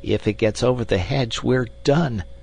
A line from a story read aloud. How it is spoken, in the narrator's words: said Summerlee, and his voice crackled into a nervous laugh as he spoke